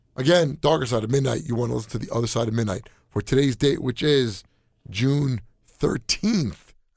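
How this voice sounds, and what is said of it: Hoarse, strained voice. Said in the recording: “I have no voice ... I don't care if I'm hoarse ... hearing me sound like this”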